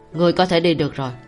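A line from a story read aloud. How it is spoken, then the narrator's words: Cold. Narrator (Vietnamese): Cảnh Nhật vẻ mặt lạnh lùng nói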